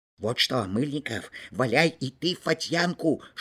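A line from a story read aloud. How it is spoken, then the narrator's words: Whisper. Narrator (Russian): шепнул Кишкин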